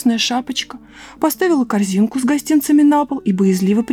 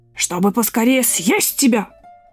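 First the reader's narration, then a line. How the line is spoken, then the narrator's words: Wolf's growl. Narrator (Russian): прорычал волк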